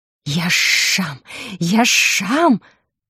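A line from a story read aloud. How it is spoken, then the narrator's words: Angry hiss. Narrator (Russian): шипел он от злости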